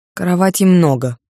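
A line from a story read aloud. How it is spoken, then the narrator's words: Snorting. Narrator (Russian): фыркнул Влад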